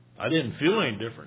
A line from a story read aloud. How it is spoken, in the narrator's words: he said